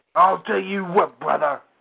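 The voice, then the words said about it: Imitates a pro wrestler's voice. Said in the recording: “good Hulk Hogan impression. That's one of the best.”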